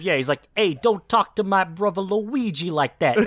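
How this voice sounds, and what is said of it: Imitated Brooklyn accent. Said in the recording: “he actually has an accent that he does consistently throughout the movie. They're meant to be from Brooklyn”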